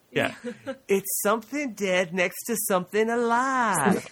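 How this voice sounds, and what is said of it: Creepy man voice. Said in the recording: “that's like a half Russell ... Is it more of a Ralph impression now? ... You have a creepy man voice. ... my Ralph impression”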